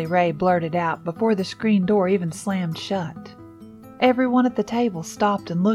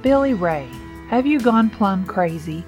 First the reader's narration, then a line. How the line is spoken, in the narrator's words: Lucky asked, practically laughing at him